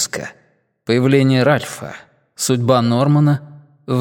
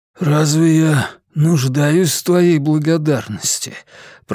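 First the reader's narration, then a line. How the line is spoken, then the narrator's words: Wheezy, utterly exhausted voice. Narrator (Russian): просипел Роланд голосом безмерно уставшего человека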